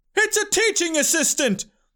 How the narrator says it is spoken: The crowd screamed

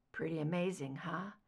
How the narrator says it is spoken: he murmured

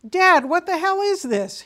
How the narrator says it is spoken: exclaimed

